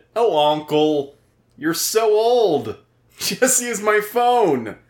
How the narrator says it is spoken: She laughed at me and said

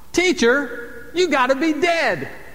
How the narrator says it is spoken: A five-year-old boy shouted out

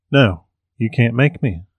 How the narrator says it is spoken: chuckled

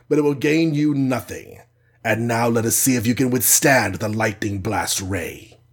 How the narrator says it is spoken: snarled Kars

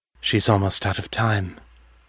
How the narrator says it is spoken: Morgan said quietly

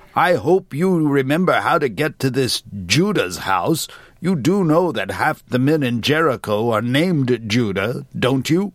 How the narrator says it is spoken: Amos scowled, his tone petulant

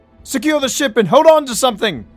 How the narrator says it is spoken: Rafe shouted

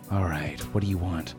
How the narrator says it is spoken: I sighed

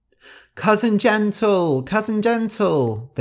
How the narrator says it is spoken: they all cried

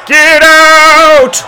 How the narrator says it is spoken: one of them screamed

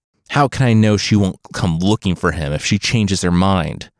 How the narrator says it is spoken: Fusa spat

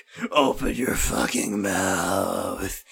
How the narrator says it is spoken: growled Chris

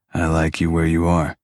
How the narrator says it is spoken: Kyle responded, grunting

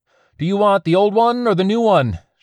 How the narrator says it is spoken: shouted

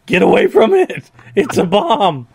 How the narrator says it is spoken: Cassie is screaming at you

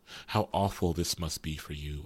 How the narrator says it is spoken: whispered

